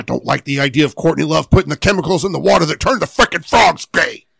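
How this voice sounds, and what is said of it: Imitates another person's voice. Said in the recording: “I really hate that you're so good at that impression.”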